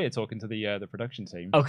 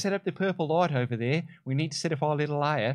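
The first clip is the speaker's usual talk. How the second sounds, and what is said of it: Put-on Australian accent. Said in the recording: “my incredible Australian accent”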